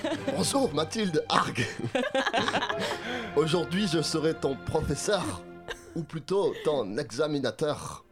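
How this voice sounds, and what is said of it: Put-on half German, half Chinese accent. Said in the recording (French): “votre accent euh, d'allemand ... C'était mi-allemand, mi-chinois”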